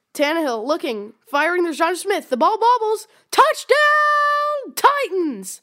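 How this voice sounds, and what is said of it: Impression of broadcaster Mike Keith. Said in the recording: “your best Mike Keith impersonation”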